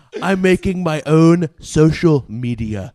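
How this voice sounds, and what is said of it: So-so Donald Trump impression. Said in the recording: “We do a Trump impression. ... it's an okay impression. It's not great, but it's okay ... It's not that good.”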